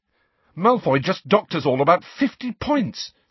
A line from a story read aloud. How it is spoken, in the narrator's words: said Harry furiously